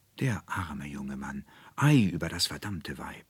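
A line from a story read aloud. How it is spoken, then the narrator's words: Murmuring all around. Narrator (German): hörte er überall murmeln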